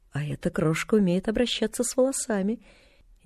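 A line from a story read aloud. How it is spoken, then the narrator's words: Quiet. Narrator (Russian): тихо сказала она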